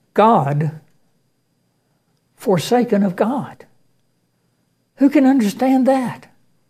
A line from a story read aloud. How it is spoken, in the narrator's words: he exclaimed in puzzled amazement